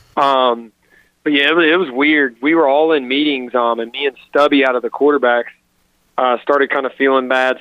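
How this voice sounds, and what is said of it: Hoarse, partly lost voice. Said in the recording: “my voice is still gone a little bit, literally from throwing up so much I lost my voice”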